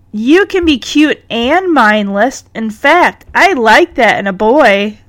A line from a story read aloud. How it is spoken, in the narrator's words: Cherry says